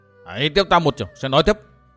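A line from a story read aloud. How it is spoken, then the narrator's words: Sudden heavy shout. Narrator (Vietnamese): Thiếu niên thanh y bỗng nặng giọng quát to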